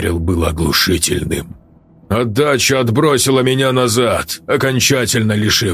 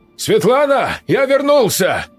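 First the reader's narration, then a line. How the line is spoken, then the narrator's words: Shout from a distance. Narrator (Russian): крикнул я, не доходя до двери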